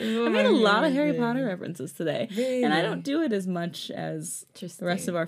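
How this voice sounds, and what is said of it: Usual voice. Nothing is said of it.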